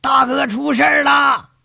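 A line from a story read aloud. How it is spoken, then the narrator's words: Frantic shout. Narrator (Chinese): 狂喊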